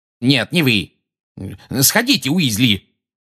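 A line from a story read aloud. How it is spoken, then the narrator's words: Barked. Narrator (Russian): гаркнул Фадж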